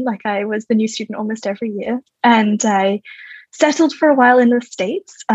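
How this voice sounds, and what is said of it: Australian accent. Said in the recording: “based on your accent, we can tell that ... I'm Australian originally”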